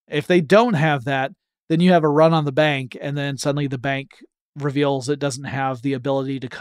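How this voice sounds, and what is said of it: Usual voice. Nothing is said of it.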